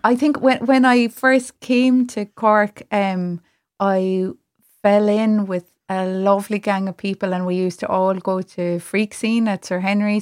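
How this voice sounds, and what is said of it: Cork Irish accent. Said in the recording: “I get heckled when I go home to Clare because of my accent. ... No, you sound pure Cork. ... it's just such a good accent.”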